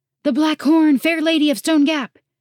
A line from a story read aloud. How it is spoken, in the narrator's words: Relian cried